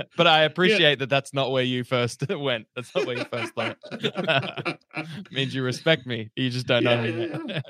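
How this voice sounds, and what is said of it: Slow-spoken Australian accent. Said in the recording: “radio voice. You talk a little slower than most Australians I've talked to.”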